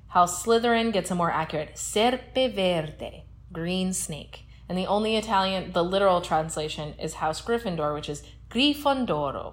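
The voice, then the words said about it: Exaggerated Italian accent on names. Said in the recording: “I wanted to say them in my good Italian accent. You could tell.”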